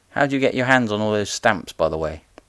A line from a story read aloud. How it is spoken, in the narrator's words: giggled